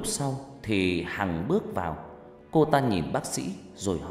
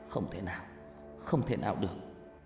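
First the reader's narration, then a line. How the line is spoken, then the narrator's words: Sighing. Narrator (Vietnamese): Tôi thở dài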